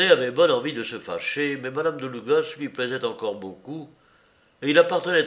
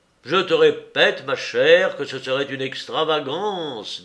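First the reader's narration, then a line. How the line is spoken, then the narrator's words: Brisk, quick. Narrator (French): dit-il vivement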